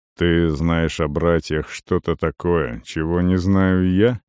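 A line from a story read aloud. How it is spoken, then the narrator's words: Gloomy question. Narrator (Russian): мрачно спросил Арон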